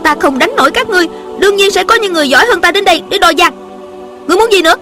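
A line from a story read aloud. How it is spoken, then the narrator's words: Angry young woman. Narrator (Vietnamese): Thiếu nữ giận dữ nói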